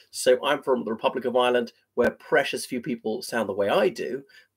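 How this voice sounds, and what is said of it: Received pronunciation British accent. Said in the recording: “this accent is sometimes called a public school accent, received pronunciation”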